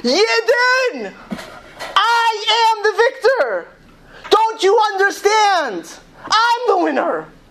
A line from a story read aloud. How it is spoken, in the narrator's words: he screams out again